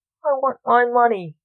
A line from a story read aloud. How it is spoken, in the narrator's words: said Fred